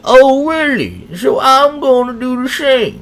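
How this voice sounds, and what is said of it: Poor imitation of another person's voice. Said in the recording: “that's a terrible Bill Cosby impression”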